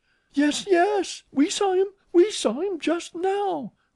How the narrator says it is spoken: cried the girls

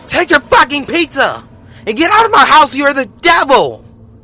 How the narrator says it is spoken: She yelled that at me

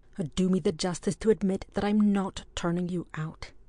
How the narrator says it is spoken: said Ardroyd rather sternly

